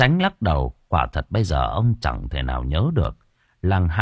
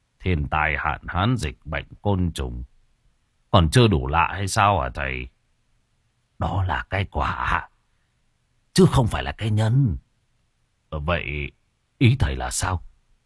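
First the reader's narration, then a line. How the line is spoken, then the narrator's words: Calm, cold, light laugh. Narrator (Vietnamese): Ông Tránh đã lấy lại bình tĩnh, nhưng ông vẫn lạnh lùng, cười nhẹ mà rằng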